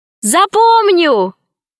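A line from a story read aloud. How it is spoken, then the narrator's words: Shouted reply. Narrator (Russian): крикнула в ответ Алиса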